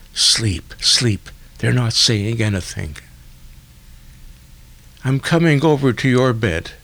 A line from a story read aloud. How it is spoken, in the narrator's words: the nurse answered quickly in a whisper